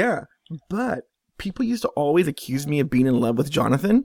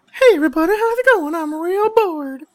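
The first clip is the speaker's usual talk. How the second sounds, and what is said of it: Imitates another person's voice. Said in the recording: “the Jonathan voice”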